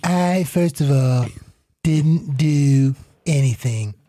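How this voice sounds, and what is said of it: Imitates another person's voice. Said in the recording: “Give the president voice that you always get ... our Donald Trump impression ... he's ridiculous with it”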